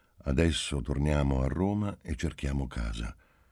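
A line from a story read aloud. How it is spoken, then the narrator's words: Calm, flat voice. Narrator (Italian): incominciò Marcello con voce calma e incolore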